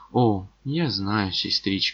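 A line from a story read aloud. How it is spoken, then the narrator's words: Sighing. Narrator (Russian): вздохнул я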